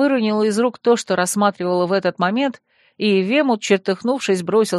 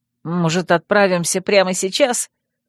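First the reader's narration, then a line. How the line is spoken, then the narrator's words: Angry hiss. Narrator (Russian): прошипел Верфокс, зло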